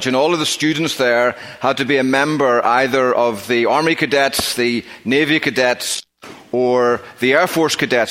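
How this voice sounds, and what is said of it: Northern Irish accent. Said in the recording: “as you may know from my accent... I don't hail from around these parts. I grew up in Northern Ireland.”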